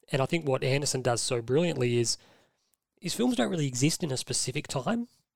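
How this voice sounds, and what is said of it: Hoarse, strained voice. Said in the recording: “I'm just losing my voice.”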